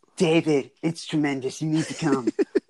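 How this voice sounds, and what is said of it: Imitates another person's voice. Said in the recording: “my Trump impersonation”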